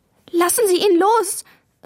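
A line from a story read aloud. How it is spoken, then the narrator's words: Tearful cry. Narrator (German): rief Maya, und in ihre Augen kamen Tränen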